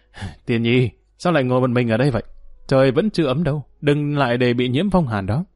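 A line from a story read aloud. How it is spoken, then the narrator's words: Laughing call. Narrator (Vietnamese): Dương Lăng không khỏi bật cười gọi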